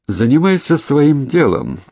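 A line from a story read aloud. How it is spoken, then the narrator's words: Dry interruption, jackal. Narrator (Russian): сухо перебил шакал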